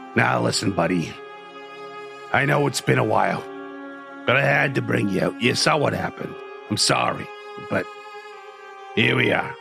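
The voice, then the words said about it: Put-on New York accent. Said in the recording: “I'm still New York for some reason... Because I was going southern earlier, and now I'm New York.”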